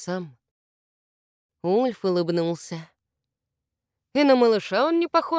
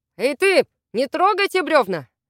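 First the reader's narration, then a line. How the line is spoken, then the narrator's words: Shout toward the river. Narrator (Russian): крикнул Вемонтарк в сторону реки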